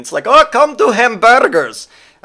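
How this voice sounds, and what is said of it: Odd put-on foreign accent. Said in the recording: “I don't know why my accent went there. That's not a German accent. ... That's not German at all.”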